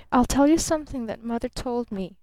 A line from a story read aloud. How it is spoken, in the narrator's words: she murmured